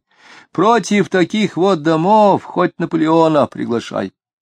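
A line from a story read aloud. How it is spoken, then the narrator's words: Sighing. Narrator (Russian): И снова вздохнул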